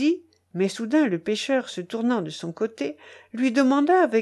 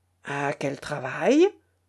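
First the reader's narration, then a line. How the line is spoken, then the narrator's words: Suspicious peasant. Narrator (French): interrogea le paysan d'un ton méfiant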